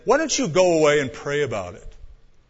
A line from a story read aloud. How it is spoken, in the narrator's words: in a very pious tone, one of the elders said